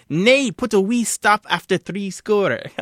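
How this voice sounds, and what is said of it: Bad put-on Scots accent. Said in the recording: “the worst Scots accent in the history of the world”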